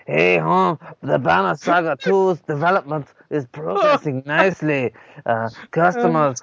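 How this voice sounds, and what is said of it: Put-on Mexican accent. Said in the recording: “accent, please. ... Mexican.”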